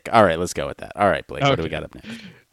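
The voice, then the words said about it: Froggy, sick-sounding voice. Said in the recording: “my voice is so froggy ... Do I sound less sick? ... You sound, yeah, less sick.”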